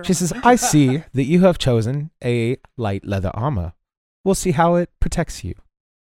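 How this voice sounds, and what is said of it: Put-on accent. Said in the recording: “I don't know why I'm talking in an accent.”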